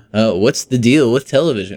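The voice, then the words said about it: Poor imitation of another person's voice. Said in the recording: “that was a terrible impression ... a bad impression of Jerry Seinfeld”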